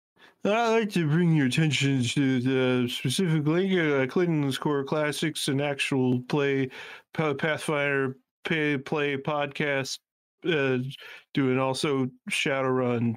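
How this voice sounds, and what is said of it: Excellent impression of a friend. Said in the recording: “your excellent impression of our good friend Connor”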